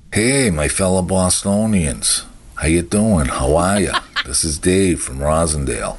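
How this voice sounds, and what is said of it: Strong Boston accent. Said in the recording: “I take pride and passion in my accent ... I got the best freaking accent anywhere”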